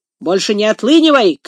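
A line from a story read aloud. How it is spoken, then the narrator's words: Shout. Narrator (Russian): крикнул Сэмбо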